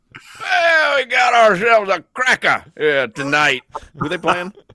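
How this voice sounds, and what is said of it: Put-on English accent. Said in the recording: “that's how we do it in England ... We can break out the accent tonight.”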